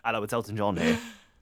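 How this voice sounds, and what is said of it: Flat, lifeless imitation of another person. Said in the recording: “Elton sounds dead. In your impression.”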